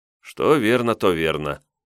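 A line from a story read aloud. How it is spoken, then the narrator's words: Sighing. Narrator (Russian): вздохнул я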